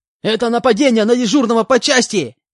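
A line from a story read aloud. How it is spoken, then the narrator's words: Shouting. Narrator (Russian): Закричал он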